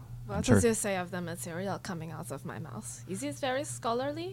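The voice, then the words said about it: Thick foreign accent. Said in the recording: “your thick accent”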